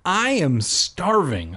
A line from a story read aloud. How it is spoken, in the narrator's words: I cried